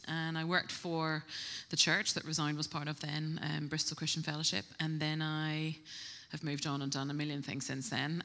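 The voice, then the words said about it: Slight Northern Irish accent. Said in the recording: “I'm originally from Northern Ireland, if you pick up a little twang”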